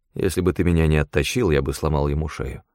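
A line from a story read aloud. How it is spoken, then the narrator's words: Grim. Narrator (Russian): мрачно ответил я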